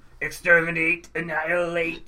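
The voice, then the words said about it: Robotic Dalek-style voice. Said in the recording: “a good impression of a robot”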